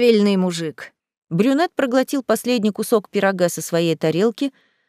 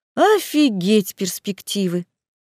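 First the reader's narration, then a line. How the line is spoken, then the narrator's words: Sighing. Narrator (Russian): вздохнула я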